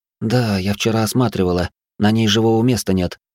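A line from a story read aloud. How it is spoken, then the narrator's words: Sighing. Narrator (Russian): вздохнула Травинка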